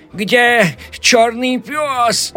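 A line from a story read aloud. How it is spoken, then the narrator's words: Shouting. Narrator (Russian): закричал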